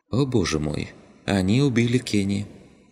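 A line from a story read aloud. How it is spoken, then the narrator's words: Sighing. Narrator (Russian): Вздохнула она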